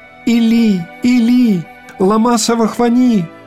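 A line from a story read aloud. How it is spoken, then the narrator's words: Loud cry. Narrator (Russian): Христос возопил громким голосом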